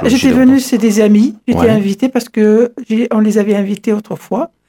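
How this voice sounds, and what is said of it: French with a Middle Eastern accent. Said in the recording (French): “Avec un accent parfumé, les parfums de l'Orient”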